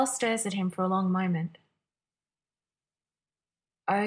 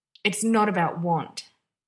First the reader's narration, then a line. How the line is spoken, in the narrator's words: Derek growls